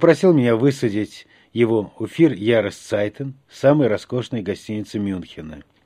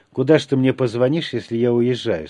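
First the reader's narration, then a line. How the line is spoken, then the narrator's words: Plain. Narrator (Russian): спросил я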